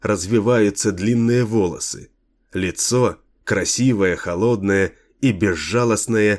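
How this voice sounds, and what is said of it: Usual voice. Nothing is said of it.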